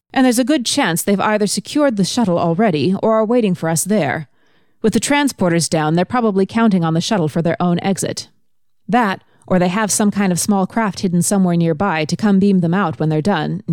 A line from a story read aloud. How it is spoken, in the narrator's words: Nyota said